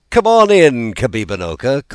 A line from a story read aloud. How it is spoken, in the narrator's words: called Shingebiss merrily